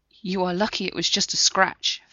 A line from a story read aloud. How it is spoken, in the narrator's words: Freya said, her voice trembling a little